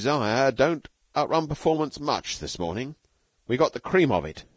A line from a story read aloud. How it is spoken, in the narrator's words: said Stalky